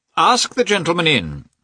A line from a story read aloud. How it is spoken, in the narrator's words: he said in a loud voice